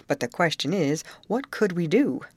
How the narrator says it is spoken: exclaimed the overseer

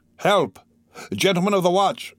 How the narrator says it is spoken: shouted Gringoire

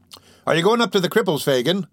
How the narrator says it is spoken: cried the little man, calling after him

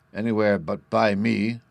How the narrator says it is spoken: growled

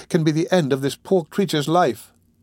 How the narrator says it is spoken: cried the young lady

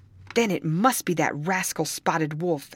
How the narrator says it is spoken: exclaimed Carlos

